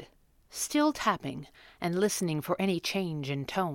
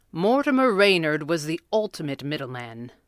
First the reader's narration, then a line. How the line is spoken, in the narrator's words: the Red Panda intoned